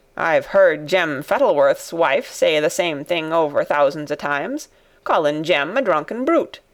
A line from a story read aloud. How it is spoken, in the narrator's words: said Ben Weatherstaff dryly